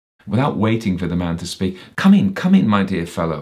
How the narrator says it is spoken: he exclaimed

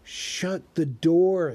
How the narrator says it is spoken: he begged them

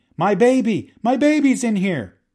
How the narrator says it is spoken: a woman began screaming

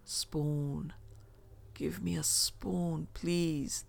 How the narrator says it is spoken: the man croaked

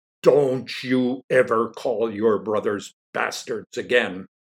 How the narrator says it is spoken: bellowed Mr

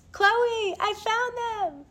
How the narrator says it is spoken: screamed like two little schoolgirls

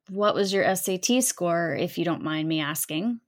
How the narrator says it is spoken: nice guy says

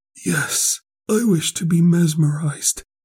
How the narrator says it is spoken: He replied feebly yet quite audibly

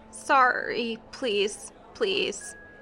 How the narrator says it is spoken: The man whimpered, and in a slurred voice, he said

